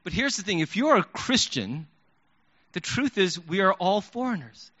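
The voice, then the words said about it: Slight foreign accent. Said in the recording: “slight accent”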